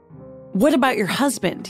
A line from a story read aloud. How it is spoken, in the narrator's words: he sputtered